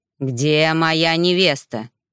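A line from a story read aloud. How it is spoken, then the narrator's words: Growled. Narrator (Russian): прорычал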